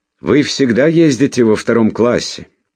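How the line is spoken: Shouting over train noise. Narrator (Russian): крикнула она сквозь стук колес

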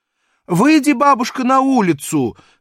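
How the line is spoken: Lady shouting. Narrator (Russian): крикнула барыня

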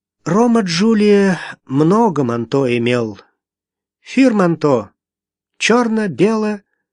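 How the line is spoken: Sad sighing after pause. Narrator (Russian): Девушка вздохнула и, помолчав, вспомнила с грустью

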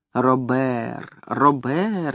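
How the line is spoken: Soft-spoken. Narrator (Russian): негромко говорила она

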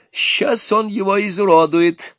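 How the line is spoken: Gleeful. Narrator (Russian): радостно сказал отец жениха

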